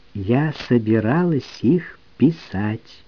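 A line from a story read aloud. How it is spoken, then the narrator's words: Very slow. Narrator (Russian): очень медленно сказала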